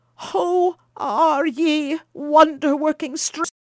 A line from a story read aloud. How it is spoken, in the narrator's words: cried he, even more bewildered than his wife had been